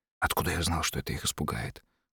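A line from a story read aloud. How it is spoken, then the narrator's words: Whisper. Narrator (Russian): шепотом ответил Джерад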